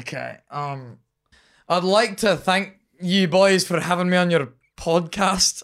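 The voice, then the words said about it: Put-on Scottish accent. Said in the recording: “in your Scottish accent ... That was way better than his earlier one.”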